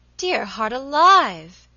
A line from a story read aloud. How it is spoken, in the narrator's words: exclaimed Mrs